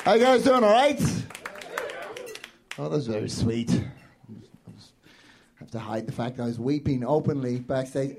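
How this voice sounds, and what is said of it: Voice sounds weird from a cold. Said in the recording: “my voice sounds weird, I'm kind of getting over a bit of a cold”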